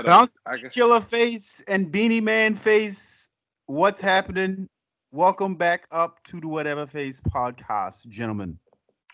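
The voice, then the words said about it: Fake Jamaican accent. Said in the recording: “Was that your Jamaican accent? ... Yes, that was my fake Jamaican accent.”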